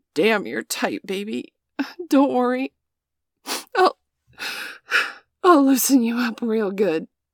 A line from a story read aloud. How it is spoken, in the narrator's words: grunt and say